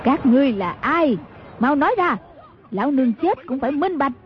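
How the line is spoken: Loud poisoned roar. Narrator (Vietnamese): Mai Siêu Phong biết là đã trúng ám khí tẩm độc, bèn cao giọng gầm lên

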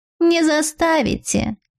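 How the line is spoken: Calm, impudent animal. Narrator (Russian): Спокойно ответила наглая животина

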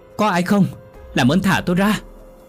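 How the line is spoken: Terrified scream. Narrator (Vietnamese): Quá hoảng sợ tôi hét lên

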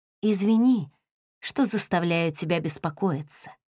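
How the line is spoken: Whisper. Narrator (Russian): прошептала

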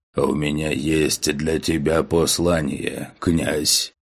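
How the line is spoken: Deep bass voice. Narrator (Russian): пробасил он

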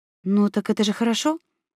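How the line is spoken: Uncertain question. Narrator (Russian): неуверенно спросила я

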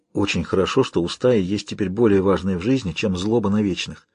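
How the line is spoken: Quiet. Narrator (Russian): Негромко сказал

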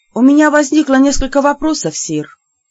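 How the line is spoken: Deep sigh. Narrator (Russian): глубоко вздохнула

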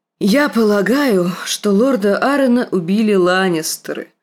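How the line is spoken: Plain. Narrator (Russian): ответила Кейтлин

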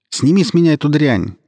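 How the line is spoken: Shouted. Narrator (Russian): крикнул я лейтенанту

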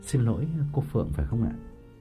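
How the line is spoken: Gentle soft question. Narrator (Vietnamese): nhỏ nhẹ hỏi

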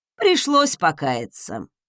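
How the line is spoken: Snorting. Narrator (Russian): хмыкнул Редвин

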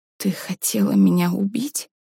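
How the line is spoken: Whisper. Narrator (Russian): прошептала Варя

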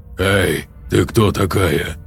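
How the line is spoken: Hoarse. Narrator (Russian): хрипло сказал Назери

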